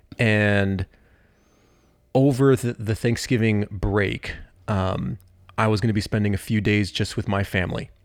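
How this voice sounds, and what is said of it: Slightly sick, congested voice. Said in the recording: “hear it in my voice. I'm still getting over this little cold.”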